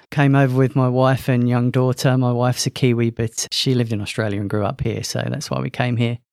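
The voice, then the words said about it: London English accent. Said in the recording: “As you could probably guess from my accent, I'm not from Australia. Originally from London”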